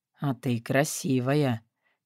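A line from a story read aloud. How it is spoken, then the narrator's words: Barely audible. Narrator (Russian): чуть слышно проносится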